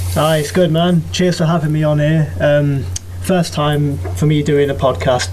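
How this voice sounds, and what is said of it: British English accent. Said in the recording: “based on your accent, you probably hail from somewhere near London”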